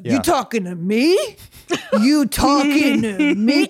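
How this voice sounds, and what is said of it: Imitates another person's voice. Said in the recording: “What is your impression? What was your old impression?”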